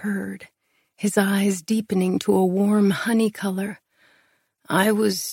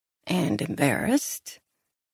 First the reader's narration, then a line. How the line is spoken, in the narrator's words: His laugh rumbled